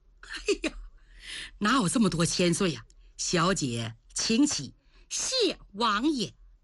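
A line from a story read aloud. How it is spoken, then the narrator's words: Amused laughter. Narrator (Chinese): 天庆王野绿贤被说笑了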